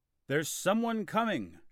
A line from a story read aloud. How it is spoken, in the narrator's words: shouted the guards at the castle gate